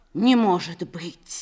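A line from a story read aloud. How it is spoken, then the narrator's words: Whispered. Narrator (Russian): умный Миша прошептал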